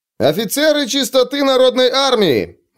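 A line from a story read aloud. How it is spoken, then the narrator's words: Shout. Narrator (Russian): выкрикнул Лео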